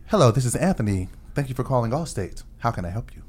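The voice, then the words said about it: Customer service phone voice. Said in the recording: “That white guy voice ... We have to use that voice now. At work ... customer stuff. Service voice”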